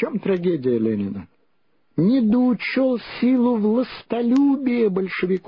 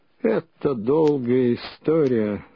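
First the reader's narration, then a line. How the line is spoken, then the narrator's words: Muffled, hollow. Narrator (Russian): глухо начал он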